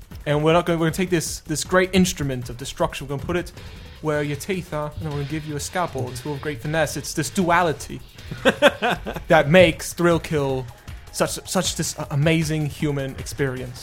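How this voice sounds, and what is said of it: Imitates another person's voice, near-English accent. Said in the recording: “worst Peter Molyneux impression ... yours was sounded almost English”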